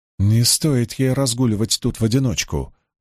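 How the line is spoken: Tired voice. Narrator (Russian): усталым голосом обронила Шириам

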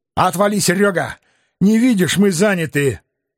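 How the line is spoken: Breathless strained wheeze. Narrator (Russian): задыхаясь, прохрипел красный от натуги Формазон

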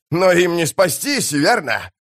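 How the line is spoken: Loud laughter. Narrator (Russian): расхохотался Порм-Кваль

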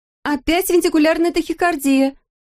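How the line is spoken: Exclamation. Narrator (Russian): воскликнула Вэл

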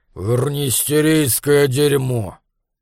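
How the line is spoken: Grumbled, walking away. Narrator (Russian): проворчал, уходя

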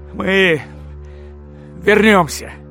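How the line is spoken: Barked. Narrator (Russian): рявкнул Феррис

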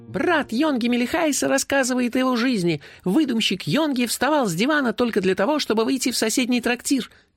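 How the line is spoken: Cheerful girl's shout. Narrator (Russian): весело кричала девочка

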